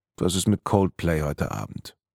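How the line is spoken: Murmured. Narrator (German): murmelte sie

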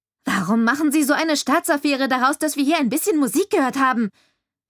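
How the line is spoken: Angry shout after someone. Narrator (German): schrie ich dem Sheriff erbost hinterher

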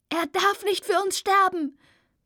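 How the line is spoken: Shouting into the wind. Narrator (German): brülle ich in den Wind

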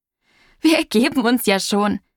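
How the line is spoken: Calling out, bursting with laughter. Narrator (German): rief Tante Nora prustend vor Lachen

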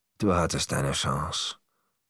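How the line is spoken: Murmuring. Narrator (German): murmelte Leo im Weggehen

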